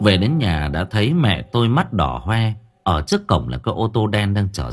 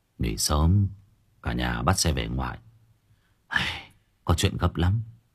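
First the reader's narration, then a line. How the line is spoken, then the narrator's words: Sad voice, sighing. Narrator (Vietnamese): Bố tôi nói giọng buồn buồn, thở dài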